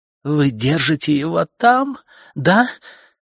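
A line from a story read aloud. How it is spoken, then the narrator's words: Sob. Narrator (Russian): Тед всхлипнул, не смог сдержаться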